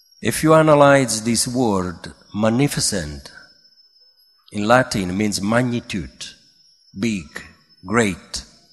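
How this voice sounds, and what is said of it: Italian accent. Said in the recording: “I am Italian, so can you understand my accent? ... Sorry, I don't have Polish, English accent”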